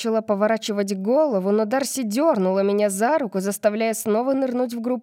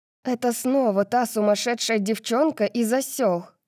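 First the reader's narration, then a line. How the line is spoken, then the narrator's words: Hiss. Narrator (Russian): прошипела она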